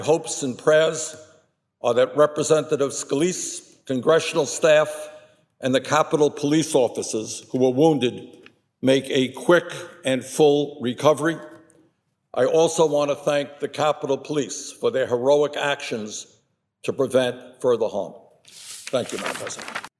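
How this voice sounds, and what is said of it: Deep Brooklyn accent, Bernie Sanders. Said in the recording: “his rather iconic voice in that deep Brooklyn accent”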